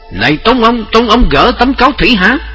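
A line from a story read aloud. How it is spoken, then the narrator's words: Hurried loud question. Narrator (Vietnamese): vội vã lớn tiếng hỏi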